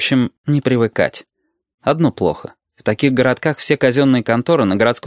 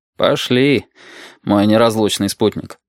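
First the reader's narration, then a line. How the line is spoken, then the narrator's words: Sigh. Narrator (Russian): вздохнул Валентин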